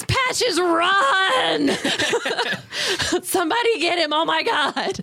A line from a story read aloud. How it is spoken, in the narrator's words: panics and just screams